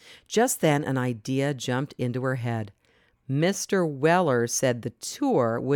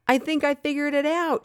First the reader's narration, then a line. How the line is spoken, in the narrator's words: cried